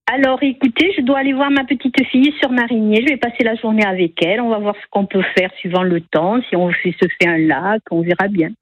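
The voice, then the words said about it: Aveyron regional French accent. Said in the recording (French): “Je repère un accent chez vous ... Je vais de l'Aveyron ... j'ai gardé mon accent ... chaque fois que je parle, on me dit d'où je viens”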